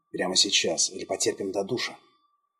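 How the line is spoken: Provocative whisper in ear. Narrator (Russian): Джон провокационно зашептал в ухо

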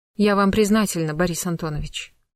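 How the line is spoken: Cold reply. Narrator (Russian): холодно ответила

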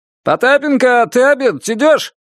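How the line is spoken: Distant shout. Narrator (Russian): крикнули от дверей

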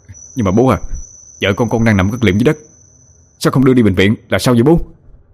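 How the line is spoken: Confused irritated retort. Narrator (Vietnamese): Anh không hiểu được cho nên gắt lại ông

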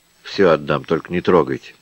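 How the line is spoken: Tearful mutter. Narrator (Russian): Пробормотал слезливо

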